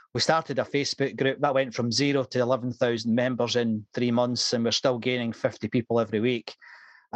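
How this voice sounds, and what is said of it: Slight Scottish accent. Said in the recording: “my slight Scottish accent”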